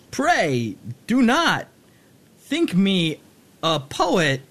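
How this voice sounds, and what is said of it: Christopher Walken-style impression. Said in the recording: “terrible Christopher Walken impression ... I think yours was much better ... They were both completely passable.”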